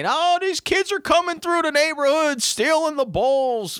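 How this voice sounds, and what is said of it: Whiny complaining Southern-sounding voice. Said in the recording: “What kind of accent was that? ... That's the people screaming and complaining. ... that sound like a bunch of Southerners or something. ... What they sound like when they cry and complain.”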